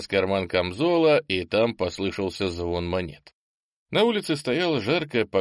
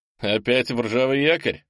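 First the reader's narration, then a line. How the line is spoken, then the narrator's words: Laughing. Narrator (Russian): засмеялся Тимк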